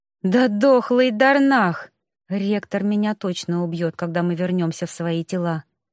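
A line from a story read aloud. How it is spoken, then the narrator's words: Sigh. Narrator (Russian): вздохнула я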